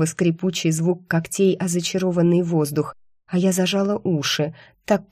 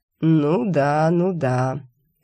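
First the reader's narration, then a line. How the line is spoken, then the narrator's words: Feigned agreement. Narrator (Russian): сделал вид, что поверил демон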